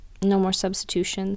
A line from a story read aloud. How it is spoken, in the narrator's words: she said quietly